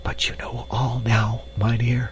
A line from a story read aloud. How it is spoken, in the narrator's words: whispered Hans